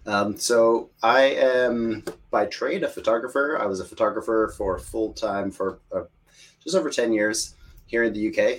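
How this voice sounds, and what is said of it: American accent. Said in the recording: “As you can tell by my accent, I'm American”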